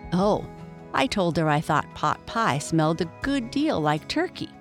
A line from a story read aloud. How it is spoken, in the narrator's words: said Jessie